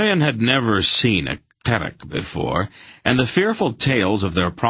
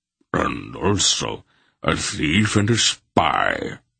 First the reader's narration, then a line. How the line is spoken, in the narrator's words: Barak rumbled good-naturedly